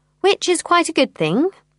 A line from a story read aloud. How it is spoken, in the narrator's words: says Diane dryly